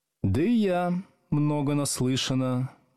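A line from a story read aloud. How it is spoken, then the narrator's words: Gloomy reply. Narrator (Russian): мрачно ответила Надя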